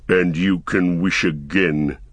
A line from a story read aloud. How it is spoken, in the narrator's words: said the growling voice